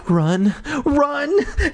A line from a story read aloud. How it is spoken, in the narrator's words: Terry cried, her eyes wild